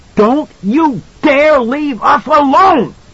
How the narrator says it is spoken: She shrieked

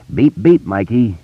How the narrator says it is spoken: Richie says solemnly

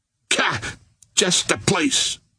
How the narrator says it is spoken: cried

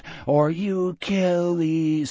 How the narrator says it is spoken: Richard breathed out

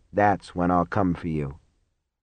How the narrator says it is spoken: he murmured

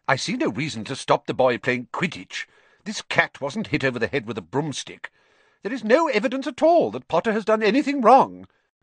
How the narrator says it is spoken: said Professor McGonagall sharply

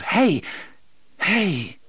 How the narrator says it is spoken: The boy cried out

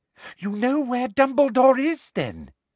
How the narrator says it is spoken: said Umbridge eagerly

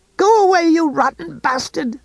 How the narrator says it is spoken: she screamed

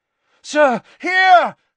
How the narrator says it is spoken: Harry yelled

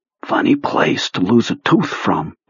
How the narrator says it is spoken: Beaver whispered

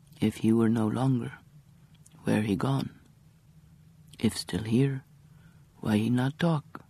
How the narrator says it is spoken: said quietly and calmly

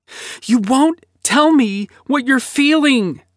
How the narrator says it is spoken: yelled, eyes wide and shining with newly formed tears that had yet to fall

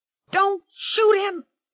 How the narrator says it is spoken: Bobby screamed

